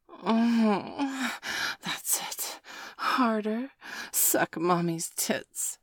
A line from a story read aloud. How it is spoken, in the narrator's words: Dana hissed